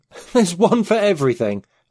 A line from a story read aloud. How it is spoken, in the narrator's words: I exclaimed